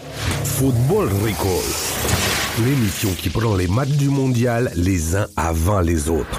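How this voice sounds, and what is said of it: Well-done put-on Russian accent. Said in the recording (French): “on aime toujours autant cet accent. ... C'est très bien fait. ... Très bien fait cet accent russe.”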